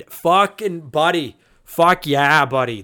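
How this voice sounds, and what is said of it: Put-on Alberta accent. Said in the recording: “that's my Alberta accent coming out”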